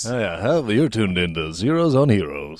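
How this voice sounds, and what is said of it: Smooth announcer-style radio voice. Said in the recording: “those dulcet tones ... totally have radio voice”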